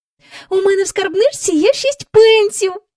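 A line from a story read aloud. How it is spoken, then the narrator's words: Joyful. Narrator (Ukrainian): радісно сказала Джейн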